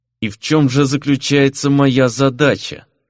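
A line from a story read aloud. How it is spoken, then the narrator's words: Through clenched teeth. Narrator (Russian): Не разжимая зубов, процедил Фернан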